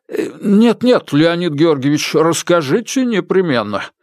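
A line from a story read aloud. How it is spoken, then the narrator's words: Pleading. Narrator (Russian): взмолился доктор Комаровский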